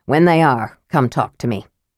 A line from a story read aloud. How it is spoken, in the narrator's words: Flint grunted